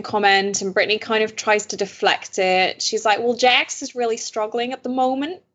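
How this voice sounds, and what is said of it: Put-on Southern accent. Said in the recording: “Why am I trying to do a Southern accent?... That was good. That was really good.”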